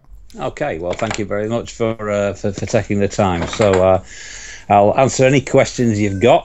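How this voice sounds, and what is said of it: Yorkshire English accent. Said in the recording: “you'll have to get used to my Yorkshire accent”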